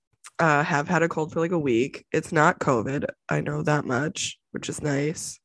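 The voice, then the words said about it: Congested, stuffy voice. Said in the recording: “I have a cold. ... all this congestion and drainage”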